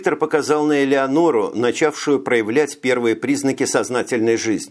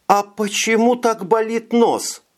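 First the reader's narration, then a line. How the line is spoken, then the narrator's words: Moan. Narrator (Russian): простонала Элька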